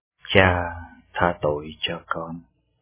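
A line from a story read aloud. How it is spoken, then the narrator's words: Muttering. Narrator (Vietnamese): Cha Pio lẩm bẩm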